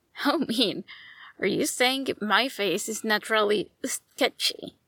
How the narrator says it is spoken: giggled

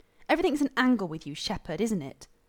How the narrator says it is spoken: Rodney said hotly

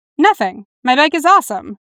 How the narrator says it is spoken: Dick said cheerfully

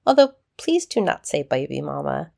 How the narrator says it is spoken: she chuckled

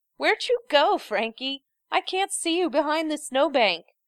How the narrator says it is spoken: Gerard calls out, unable to keep the laugh out of his voice

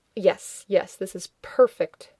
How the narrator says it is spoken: Rodney flung his hands in the air, muttering

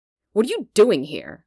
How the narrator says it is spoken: Han asks sharply

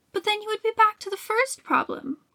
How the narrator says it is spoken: Courfeyrac exclaimed

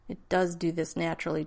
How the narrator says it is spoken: John said stiffly

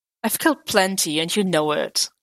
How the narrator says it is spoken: Clint scoffed

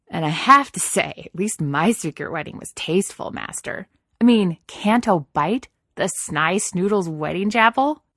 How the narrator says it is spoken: snorted a laugh

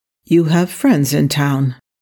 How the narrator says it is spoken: Wesley said flatly

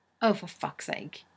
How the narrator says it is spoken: Rodney sighs

